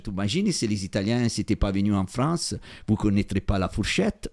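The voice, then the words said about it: Italian accent speaking French. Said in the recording (French): “Je vis en France, je suis italien. Voilà, j'ai mon accent.”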